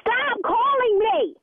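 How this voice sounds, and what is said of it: Shouting angrily. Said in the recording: “Stop shouting!”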